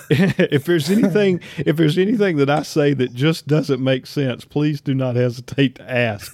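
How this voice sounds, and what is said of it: Southern US accent. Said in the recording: “my redneck Southern accent”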